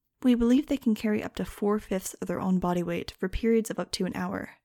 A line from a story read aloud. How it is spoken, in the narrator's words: said Marian